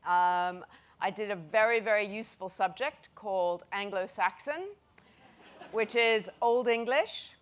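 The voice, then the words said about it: American accent. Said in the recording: “as you can tell from my accent, even though I've lived in the UK for so many years that it's getting embarrassing, I am American”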